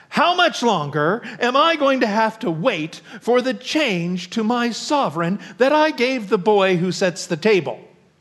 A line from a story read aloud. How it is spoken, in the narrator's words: Falsehood exclaimed impatiently